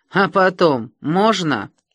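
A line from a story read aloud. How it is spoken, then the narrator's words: Young man's sarcastic question. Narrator (Russian): молодой ном и язвительно спросил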